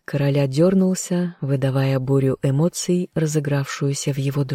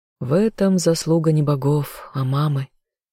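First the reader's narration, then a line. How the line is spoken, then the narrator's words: Sighing. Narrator (Russian): вздохнула Азазель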